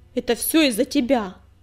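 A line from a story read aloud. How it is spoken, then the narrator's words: Angry outburst. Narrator (Russian): первым нарушил молчание Частокол, сердито сверкнув глазами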